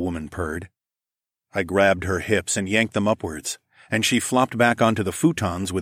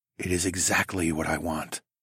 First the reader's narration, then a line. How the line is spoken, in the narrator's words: I whispered with a wicked smile